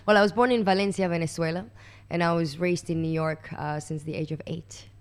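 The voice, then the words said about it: American accent. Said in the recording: “we can detect an accent there... that's an American accent”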